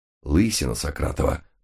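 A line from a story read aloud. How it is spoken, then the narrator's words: Muttering. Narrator (Russian): пробормотал я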